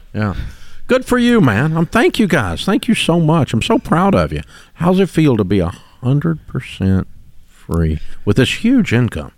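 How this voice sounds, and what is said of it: Southern American twang. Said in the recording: “I love the Southern twang ... The twang sells you.”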